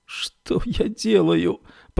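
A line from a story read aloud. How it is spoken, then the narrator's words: Moaning. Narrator (Russian): простонала Феба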